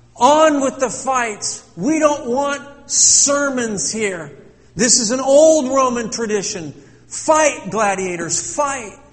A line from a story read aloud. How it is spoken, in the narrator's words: Soon his voice was drowned out by the crowd